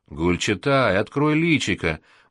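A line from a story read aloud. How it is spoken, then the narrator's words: Roaring boatswain's bass. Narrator (Russian): боцманским басом взревел Леха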